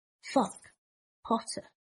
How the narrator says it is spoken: Malfoy said thickly

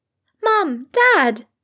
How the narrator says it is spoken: exclaimed Rose, practically buzzing in his arms

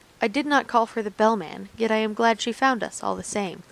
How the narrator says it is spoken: the wizard answered calmly

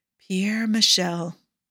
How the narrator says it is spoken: he repeated in a whisper

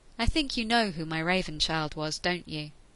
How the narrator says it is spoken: Paul asked slowly

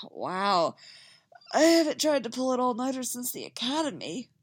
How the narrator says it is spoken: he sighs

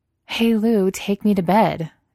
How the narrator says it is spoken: Debbie says, and laughs

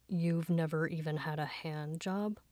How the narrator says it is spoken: Fangxin's deep voice whispered into his ear

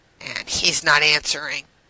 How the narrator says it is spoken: John said tightly

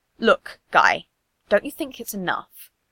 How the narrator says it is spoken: Kakashi snapped

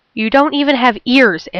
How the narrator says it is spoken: Amber snaps

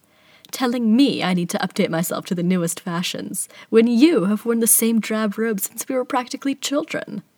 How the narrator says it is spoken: Ellenway says with a laugh

